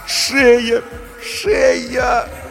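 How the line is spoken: Moaning. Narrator (Russian): стонала Галина Сергеевна

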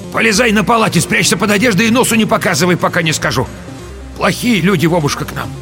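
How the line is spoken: Shouting to grandson. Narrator (Russian): крикнула внуку

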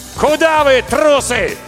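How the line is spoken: Shout. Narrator (Russian): крикнул

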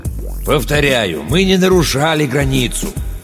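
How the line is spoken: Calm, persuasive. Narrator (Russian): Семёныч старался говорить спокойно и убедительно

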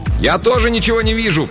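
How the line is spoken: Shout. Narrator (Russian): прокричал агент Санчес

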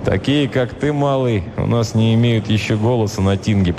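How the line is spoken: Grumbling warrior. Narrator (Russian): проворчал варяг

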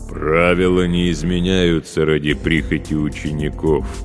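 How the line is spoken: Booming from overhead. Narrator (Russian): прогудел он над головой

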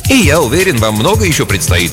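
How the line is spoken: Deliberately cheerful. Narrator (Russian): кивнул ему Фабио нарочито бодро

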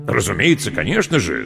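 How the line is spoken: Enthusiastic exclamation. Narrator (Russian): с энтузиазмом воскликнул полковник

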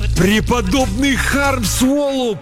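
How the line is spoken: Moaning. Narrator (Russian): простонал он

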